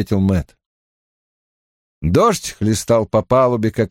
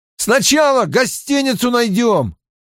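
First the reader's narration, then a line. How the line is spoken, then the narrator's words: Shouting. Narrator (Russian): прокричал Мэтт Тому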